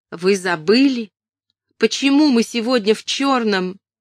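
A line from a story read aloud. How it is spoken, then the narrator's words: Straining shout. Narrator (Russian): Она собрала все свои силы и крикнула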